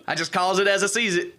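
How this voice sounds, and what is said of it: Very southern accent. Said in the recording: “In a very southern accent”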